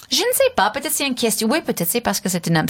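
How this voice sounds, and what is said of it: Pronounced foreign accent in French. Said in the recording (French): “votre accent gênait... son accent, qui est peut-être un peu moins prononcé que vous”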